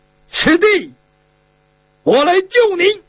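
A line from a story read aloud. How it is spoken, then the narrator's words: Involuntary shout. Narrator (Chinese): 下意识的，又是有点不由自主的，他喊了一声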